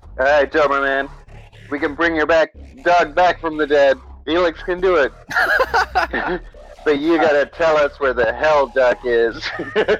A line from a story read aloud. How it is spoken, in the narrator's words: Captain Football starts shouting at him, be like